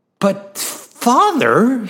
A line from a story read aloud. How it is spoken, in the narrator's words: cried